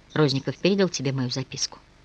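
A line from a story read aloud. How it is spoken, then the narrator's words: Quiet, calmer question. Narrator (Russian): Когда первое волнение немного улеглось, Николай тихо спросил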